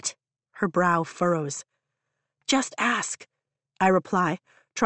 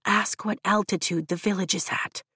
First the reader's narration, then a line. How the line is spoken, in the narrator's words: I whisper to Rhiannon